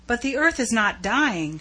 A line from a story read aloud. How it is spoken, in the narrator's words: she cried